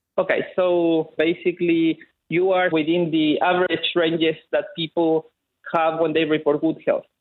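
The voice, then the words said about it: Thick Chilean accent. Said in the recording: “he has a delightfully thick Chilean accent”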